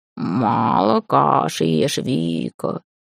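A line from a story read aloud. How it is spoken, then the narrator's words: Familiar grumbling. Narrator (Russian): проворчал фамильяр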